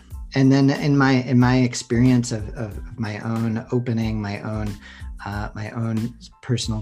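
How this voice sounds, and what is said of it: Usual voice. Nothing is said of it.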